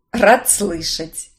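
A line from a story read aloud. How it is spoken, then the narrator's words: Chuckling. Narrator (Russian): хохотнул тот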